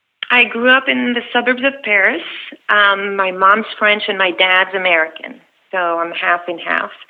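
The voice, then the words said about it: Beautiful French-born accent. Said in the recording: “You have a beautiful accent. Sounds like, is it New Jersey? ... that's clearly not where your accent's from. You were born in France.”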